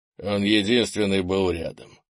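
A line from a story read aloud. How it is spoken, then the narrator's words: Sighing. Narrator (Russian): вздохнул Крис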